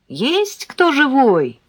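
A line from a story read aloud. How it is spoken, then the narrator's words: Shout. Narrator (Russian): крикнула я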